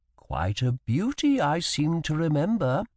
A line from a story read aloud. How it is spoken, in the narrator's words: my sister added in a mild tone of voice